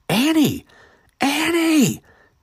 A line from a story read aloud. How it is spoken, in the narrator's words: Eric cried